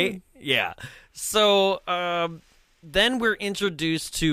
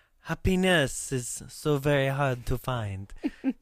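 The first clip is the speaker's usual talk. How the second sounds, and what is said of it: Lea Thompson's strange French accent. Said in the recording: “Leah Thompson, when she's talking in that strange French accent.”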